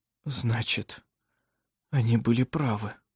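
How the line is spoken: Whisper. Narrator (Russian): прошептал

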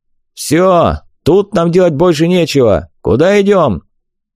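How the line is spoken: Barked shout. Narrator (Russian): гаркнул

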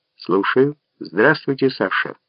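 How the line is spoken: Soft, gentle. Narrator (Russian): мягко произнес Карасик

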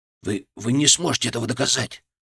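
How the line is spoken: Whisper. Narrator (Russian): прошептал

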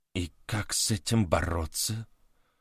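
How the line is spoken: Involuntary whisper. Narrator (Russian): невольно прошептал француз

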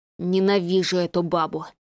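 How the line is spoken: Sorcerer grumbling. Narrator (Russian): послышалось ворчание рыжебородого чародея

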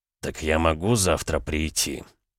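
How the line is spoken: Through gritted teeth. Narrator (Russian): сквозь зубы процедил Дерешев

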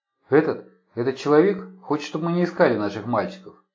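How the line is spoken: Plain. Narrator (Russian): сказала Мария

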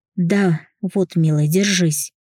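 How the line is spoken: Moaned. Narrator (Russian): простонал я

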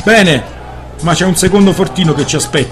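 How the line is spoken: Shouted. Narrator (Italian): gridò Van Horn

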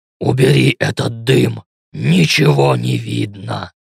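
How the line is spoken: Growl. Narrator (Russian): рыкнул Ленс

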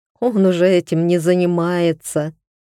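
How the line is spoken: Laughing. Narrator (Russian): рассмеялась Алена

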